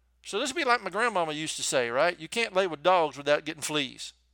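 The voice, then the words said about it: Southern US accent. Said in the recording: “in case you couldn't tell from my accent, I'm from the South”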